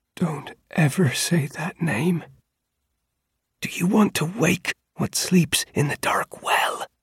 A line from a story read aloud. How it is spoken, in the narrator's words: Into my ear, he whispered